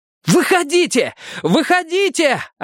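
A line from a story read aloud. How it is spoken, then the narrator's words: Yelling. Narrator (Russian): орал Мэтью в зияющую дыру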